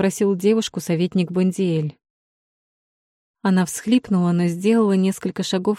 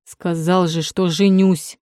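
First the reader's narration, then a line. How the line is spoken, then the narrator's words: Growled. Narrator (Russian): прорычал Сэп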